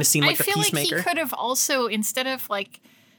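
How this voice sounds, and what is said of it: Usual voice. Nothing is said of it.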